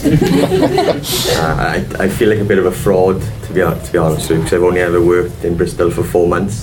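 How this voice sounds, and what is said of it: Bristol English accent. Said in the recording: “As you can tell from my accent, I'm Bristol born and raised.”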